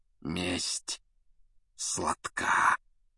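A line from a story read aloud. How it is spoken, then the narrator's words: Whispered. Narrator (Russian): шепнул Снег Блэку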